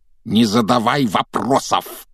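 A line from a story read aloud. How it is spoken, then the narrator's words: Barked. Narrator (Russian): рявкнул дядя Вернон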